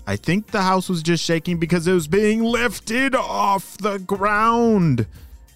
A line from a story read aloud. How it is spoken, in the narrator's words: she shouted